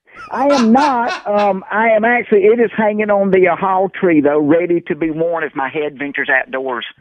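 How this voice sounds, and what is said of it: Thick Southern country accent. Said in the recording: “a guy who sounds like Kentucky Fried Chicken guy. Colonel Sanders ... That's what my accent is like”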